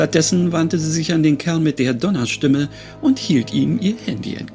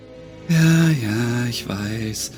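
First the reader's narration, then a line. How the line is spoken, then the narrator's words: Murmuring. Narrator (German): murmelte Ashlyn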